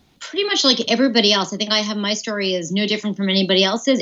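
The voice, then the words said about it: American English accent. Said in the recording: “I'm obviously from the U.S., which you can probably tell from my accent”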